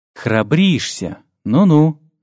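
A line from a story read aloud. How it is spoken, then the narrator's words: Scoffing. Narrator (Russian): хмыкнул он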